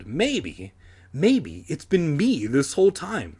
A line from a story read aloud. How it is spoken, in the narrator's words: I cried excitedly